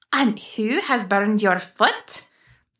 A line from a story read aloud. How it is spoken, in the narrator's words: the adult fairy growled